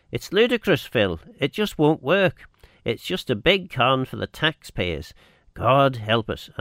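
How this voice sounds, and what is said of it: Manx accent. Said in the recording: “I love your accent. So good to hear a proper Manx accent.”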